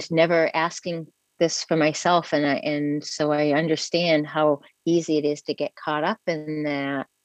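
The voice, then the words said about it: American accent. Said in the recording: “from my accent, you can tell I'm, I'm from America.”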